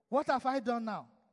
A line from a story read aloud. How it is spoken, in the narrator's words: David replied